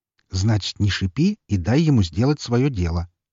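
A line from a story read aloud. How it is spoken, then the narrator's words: Calm advice. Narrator (Russian): спокойно посоветовал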